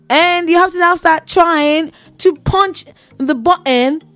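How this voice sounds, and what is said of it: Speaks in a put-on accent. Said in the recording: “I don't know why I'm using this accent.”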